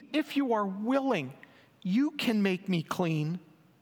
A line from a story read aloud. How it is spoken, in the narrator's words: begged him on his knees